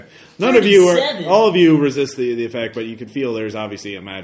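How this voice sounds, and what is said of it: Usual voice. Nothing is said of it.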